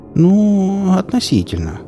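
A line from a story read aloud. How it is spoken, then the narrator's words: Drawl. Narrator (Russian): протянула Сонька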